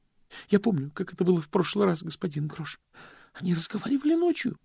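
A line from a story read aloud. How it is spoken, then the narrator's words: Trembling voice. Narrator (Russian): произнес Стэнли дрожащим голосом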